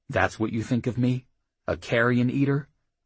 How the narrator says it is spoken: Delia smiled bitterly

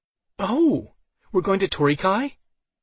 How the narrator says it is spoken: Alice asked excitedly

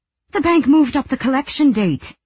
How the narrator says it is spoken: Colm said indignantly

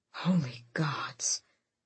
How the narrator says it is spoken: Fenris whispered behind him

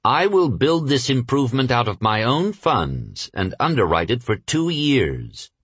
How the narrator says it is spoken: Rockefeller replied coolly

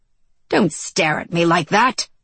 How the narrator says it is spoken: he barked

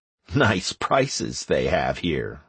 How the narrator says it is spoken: I chuckled

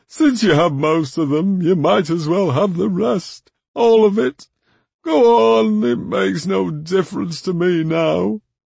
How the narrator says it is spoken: sighed

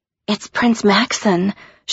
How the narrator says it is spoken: she whispered

